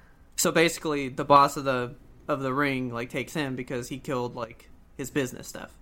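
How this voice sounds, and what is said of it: Usual voice. Nothing is said of it.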